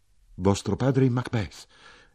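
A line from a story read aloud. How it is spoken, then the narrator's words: Exclaiming. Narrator (Italian): io esclamai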